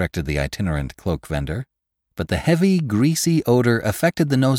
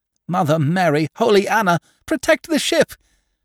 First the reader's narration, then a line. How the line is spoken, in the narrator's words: shrieked the fat soap maker